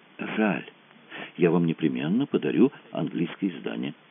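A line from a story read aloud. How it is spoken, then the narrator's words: Plain. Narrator (Russian): сказал Дон Себастьяно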